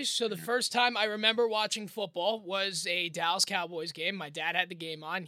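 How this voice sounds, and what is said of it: New York accent. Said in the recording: “You have a New York accent.”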